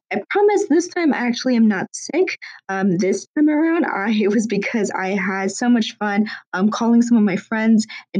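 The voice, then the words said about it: Strained, worn-out voice. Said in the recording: “sorry about my voice. ... my voice is deteriorating, apparently ... trying to rest my voice”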